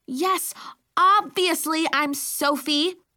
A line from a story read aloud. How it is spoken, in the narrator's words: she cried